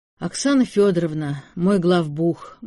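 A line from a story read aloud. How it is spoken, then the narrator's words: Gloomy explanation. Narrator (Russian): мрачно объяснил Артем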